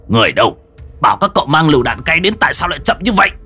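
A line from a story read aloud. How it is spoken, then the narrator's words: Shouting. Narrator (Vietnamese): Hàn Tu quát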